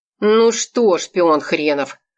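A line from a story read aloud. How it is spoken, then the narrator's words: Gloomy question. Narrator (Russian): мрачно спросил Кусков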